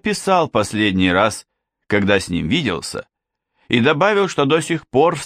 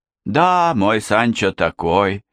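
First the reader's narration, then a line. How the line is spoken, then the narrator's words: Tearful sigh. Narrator (Russian): вздохнула Донья Тереса, ее глаза снова наполнились слезами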